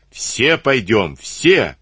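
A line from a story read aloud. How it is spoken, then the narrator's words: Shouting Cossacks. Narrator (Russian): заорали казаки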